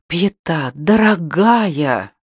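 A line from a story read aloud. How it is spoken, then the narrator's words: Breathed out. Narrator (Russian): выдохнул он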